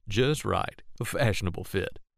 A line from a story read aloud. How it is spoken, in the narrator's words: said John, and he gave a slight chuckle